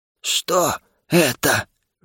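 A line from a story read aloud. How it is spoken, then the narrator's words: Trembling voice. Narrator (Russian): дрожащим голосом повторила рысь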